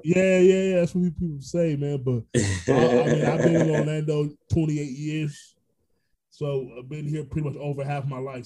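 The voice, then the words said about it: New York accent. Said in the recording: “I was born in Brooklyn ... I'm a native New Yorker ... People hear it in my voice ... I hear Fat Man Scoop vibes”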